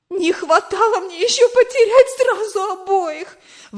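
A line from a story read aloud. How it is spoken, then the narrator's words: Exclaimed. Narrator (Russian): воскликнула она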